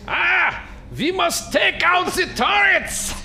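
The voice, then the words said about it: Shouted mock German accent. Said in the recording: “shouts out in apparently a German accent”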